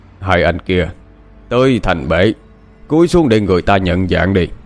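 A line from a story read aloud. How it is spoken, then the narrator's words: Deep gruff voice. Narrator (Vietnamese): Có tiếng nói ồm ồm cất lên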